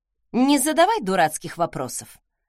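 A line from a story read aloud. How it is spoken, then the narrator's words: Angry hiss. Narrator (Russian): зло сцедила я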